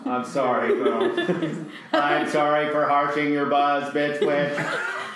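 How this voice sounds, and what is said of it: Flat monotone apology. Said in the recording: “Do you find my monotone?”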